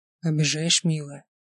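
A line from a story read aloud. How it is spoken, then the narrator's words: Soft intimate murmur. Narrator (Russian): тихо сказал Ник, губами почти касаясь мочки ее уха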